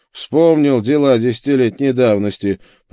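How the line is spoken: Grumbling. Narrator (Russian): проворчал

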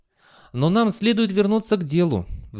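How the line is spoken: Sighing. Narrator (Russian): вздохнул Фастольф

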